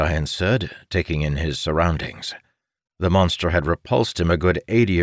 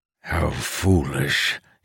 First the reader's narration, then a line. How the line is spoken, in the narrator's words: he grumbled